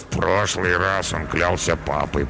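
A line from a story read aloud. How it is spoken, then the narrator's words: Mumbled. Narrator (Russian): пробормотал Карабас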